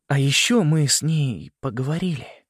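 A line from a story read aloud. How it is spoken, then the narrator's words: Fading into whisper. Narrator (Russian): добавил он, медленно переходя на шепот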